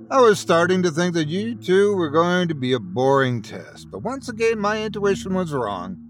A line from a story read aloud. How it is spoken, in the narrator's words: Claus said, his eyes gleaming playfully